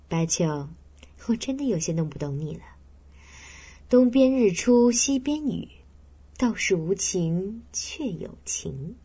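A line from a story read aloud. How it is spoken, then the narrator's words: Smiling. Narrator (Chinese): 文丽笑笑说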